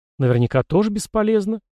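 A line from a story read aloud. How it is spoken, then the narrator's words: Uncertain. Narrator (Russian): неуверенно сказала Марина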